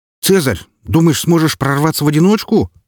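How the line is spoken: Shouted. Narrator (Russian): закричал кто-то из откликнувшихся на мой зов одиночек

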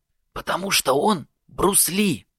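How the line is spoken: Whispered explanation. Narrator (Russian): шепотом пояснил Влад

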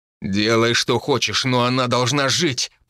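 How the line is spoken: Growled. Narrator (Russian): прорычал Тайфун

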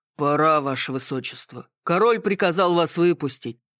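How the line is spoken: Good-natured deep bass. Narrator (Russian): добродушно пробасил стражник

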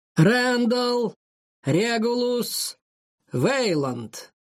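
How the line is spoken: Booming announcement, king. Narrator (Russian): громогласным голосом объявил его отец, король Алан

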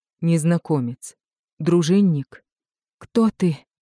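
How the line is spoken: Breathless. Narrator (Russian): выдохнула она

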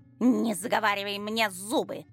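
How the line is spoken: Irritated snort. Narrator (Russian): фыркнула Сайше, раздраженно

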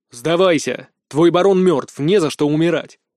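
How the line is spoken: Firm voice. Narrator (Russian): твердым голосом произнес

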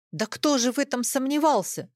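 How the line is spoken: Angry shout. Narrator (Russian): вскричал сердито Юрий

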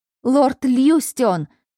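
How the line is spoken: Shout. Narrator (Russian): закричал Эвьен

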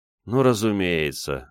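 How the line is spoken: Sigh. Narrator (Russian): вздохнул я

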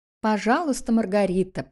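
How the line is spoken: Sarcastic. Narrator (Russian): продолжала Нюра язвительно

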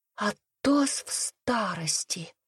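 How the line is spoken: Enchanted whisper, girl. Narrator (Russian): завороженно прошептала моя девочка

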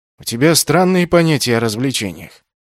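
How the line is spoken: Grumbling. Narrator (Russian): проворчал Юкаген

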